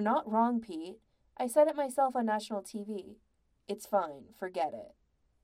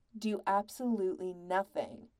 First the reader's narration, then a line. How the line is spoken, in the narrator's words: Patrick said firmly